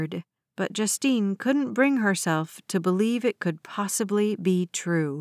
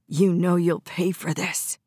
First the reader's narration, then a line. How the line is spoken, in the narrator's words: he hissed